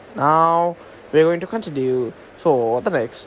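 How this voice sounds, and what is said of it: Put-on British accent. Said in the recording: “why am I talking in the British accent?”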